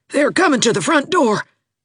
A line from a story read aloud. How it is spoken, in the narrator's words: gasped Rebecca Dew, panic-stricken